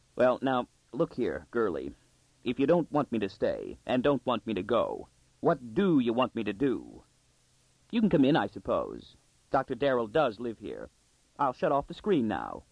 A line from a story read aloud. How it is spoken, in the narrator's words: tightly, he said